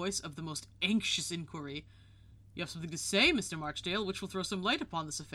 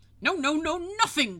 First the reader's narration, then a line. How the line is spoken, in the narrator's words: cried Mr